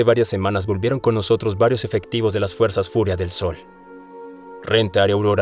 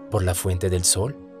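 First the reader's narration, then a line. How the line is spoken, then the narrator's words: Soft. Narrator (Spanish): dijo Aurora suavemente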